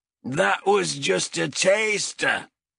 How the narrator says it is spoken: bellowed High Captain Azrek

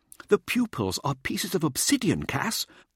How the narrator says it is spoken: Mirza said eagerly

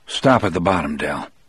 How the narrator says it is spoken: I told him in a low voice

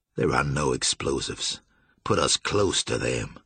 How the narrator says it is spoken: Julian said coldly

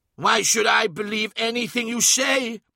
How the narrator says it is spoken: He cried

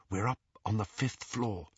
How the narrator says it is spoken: he whispered

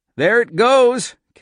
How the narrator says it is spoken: Cap exclaimed

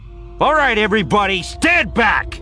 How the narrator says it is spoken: he shouted

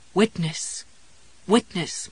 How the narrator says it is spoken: Marvin pleaded, fading out now

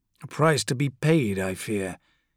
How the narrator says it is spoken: he muttered

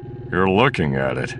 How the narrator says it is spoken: Solo grunted

